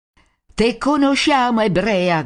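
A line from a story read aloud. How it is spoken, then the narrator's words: Shouting crowd. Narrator (Italian): gridano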